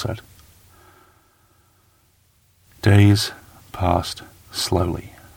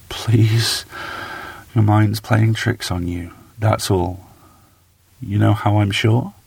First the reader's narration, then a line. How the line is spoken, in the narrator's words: pleaded softly